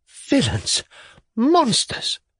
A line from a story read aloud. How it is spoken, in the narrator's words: cried the lady, sinking on the sofa